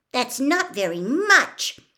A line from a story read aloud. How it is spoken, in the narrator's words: Hermione shouted indignantly over Winky's continued screaming and fist beating